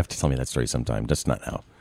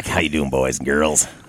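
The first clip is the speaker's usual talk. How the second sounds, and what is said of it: Flattened Wolfman Jack impression. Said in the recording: “this voice hurts after a moment or two ... doing the voice ... If I flatten it out a little bit more, it's Wolfman Jack.”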